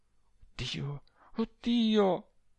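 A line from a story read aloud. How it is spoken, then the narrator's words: Agitated moaning. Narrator (Italian): agitatissima, gemendo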